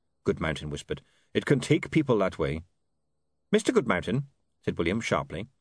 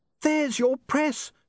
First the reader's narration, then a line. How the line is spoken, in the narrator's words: she shouted